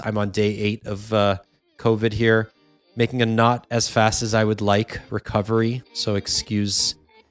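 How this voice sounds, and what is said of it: Hoarse voice. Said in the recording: “My voice is a little hoarse.”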